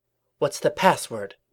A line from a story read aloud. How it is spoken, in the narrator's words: a voice from within hissed